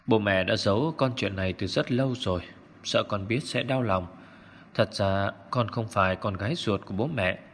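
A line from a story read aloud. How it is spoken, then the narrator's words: Old man sighing. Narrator (Vietnamese): Ông Dư thở dài, nói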